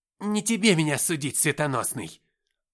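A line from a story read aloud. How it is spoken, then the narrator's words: Snapping retort. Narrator (Russian): огрызнулся Табрис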